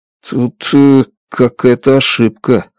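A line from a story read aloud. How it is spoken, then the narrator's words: Mumbled. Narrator (Russian): пробормотал я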